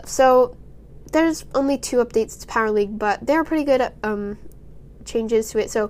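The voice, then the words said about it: Congested, sore-throated sick voice. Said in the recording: “can hear it in my voice, but I'm still not feeling the best. I have a little cold, snotty nose, I mean, sore throat”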